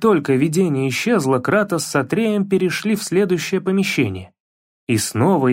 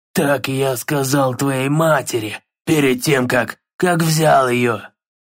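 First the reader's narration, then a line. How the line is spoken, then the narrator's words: Hoarse, echoing. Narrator (Russian): Прохрипел он, и его голос эхом отразился со всех сторон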